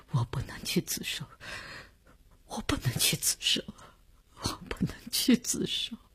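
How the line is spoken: Sobbing, breaking down, repeating. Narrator (Chinese): 李大公哭得悲悲切切，他的精神看上去已经濒于崩溃，只是不停地重复着

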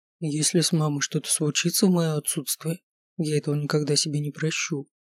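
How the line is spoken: Quiet reply. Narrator (Russian): тихо ответил я

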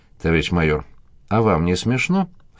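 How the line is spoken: Snorting. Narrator (Russian): фыркнула она

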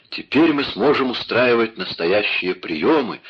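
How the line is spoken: Exclamation. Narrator (Russian): воскликнул он

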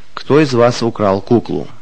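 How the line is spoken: Father's stern question. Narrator (Russian): отец строго спросил

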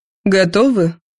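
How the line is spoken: Uncertain reply. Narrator (Russian): неуверенно ответила Яна

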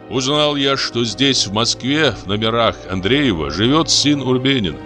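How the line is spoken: Plain. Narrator (Russian): сказал Камышев

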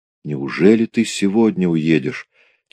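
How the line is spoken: Quiet question. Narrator (Russian): тихо спросила

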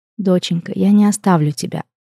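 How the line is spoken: Gentle, faltering reassurance. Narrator (Russian): мягко улыбнулась женщина, стараясь выглядеть сильной, несокрушимой, что ей абсолютно не удавалось

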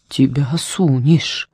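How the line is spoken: Muttering. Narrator (Russian): пробормотала Шмидай

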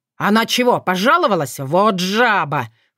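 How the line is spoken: Snorted. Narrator (Russian): фыркнул Крыловей

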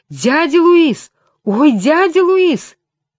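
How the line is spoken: Boy's hoarse yelling. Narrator (Russian): Парнишка хрипло ойкнул и завопил

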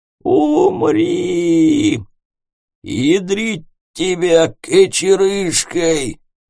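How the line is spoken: Wheezing gnome. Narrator (Russian): прохрипел в ответ гном

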